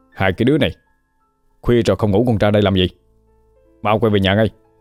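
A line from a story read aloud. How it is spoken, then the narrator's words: Shouting. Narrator (Vietnamese): quát lên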